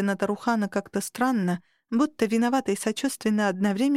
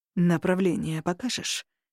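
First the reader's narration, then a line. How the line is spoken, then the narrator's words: Interrupting, breathing hoarsely. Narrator (Russian): вклинился Варук, хрипло дыша сквозь зубы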